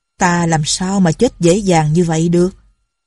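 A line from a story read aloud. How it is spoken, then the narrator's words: Cold. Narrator (Vietnamese): Lệnh Hồ Xung lạnh lùng nói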